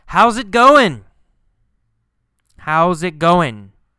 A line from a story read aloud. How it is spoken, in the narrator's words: Carlos yells